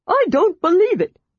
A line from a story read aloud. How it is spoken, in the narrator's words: shrieked the Kender